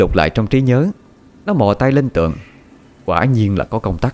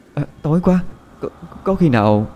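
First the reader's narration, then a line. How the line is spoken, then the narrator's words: Trembling voice. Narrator (Vietnamese): Quỳnh Hương nói với giọng run run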